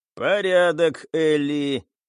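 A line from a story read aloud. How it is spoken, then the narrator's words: Creaky metallic voice. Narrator (Russian): проскрипело в ушах у пилотов металлическим тембром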